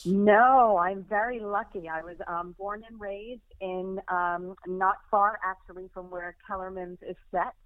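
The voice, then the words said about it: Subtle American accent. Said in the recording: “I'm detecting a subtle hint of an accent ... I just never lost my twang ... I'm still an American at heart”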